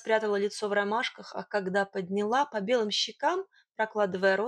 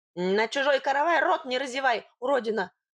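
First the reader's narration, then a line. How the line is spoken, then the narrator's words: Sharp shout. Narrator (Russian): прикрикнул он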